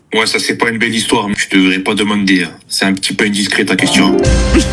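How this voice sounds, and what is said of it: Corsican French accent. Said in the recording (French): “Il a un accent corse.”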